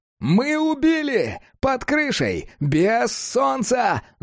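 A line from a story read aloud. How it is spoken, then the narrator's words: Yelling cat. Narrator (Russian): заорал кот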